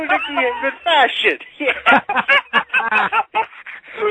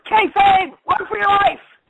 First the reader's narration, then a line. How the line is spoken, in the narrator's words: I yelled